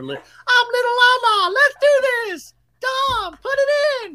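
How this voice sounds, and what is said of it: Silly character voice. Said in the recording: “I do all the silly voices ... I do a voice for Lala's private parts, Little Lala”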